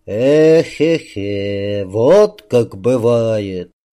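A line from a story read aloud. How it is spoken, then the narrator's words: Old man speaking sadly. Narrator (Russian): печально заговорил старик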